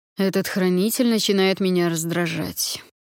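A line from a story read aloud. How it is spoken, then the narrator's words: Bored complaint. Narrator (Russian): скучающим тоном пожаловался дракон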